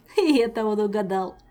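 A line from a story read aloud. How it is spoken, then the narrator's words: Laughing. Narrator (Russian): засмеялся Жак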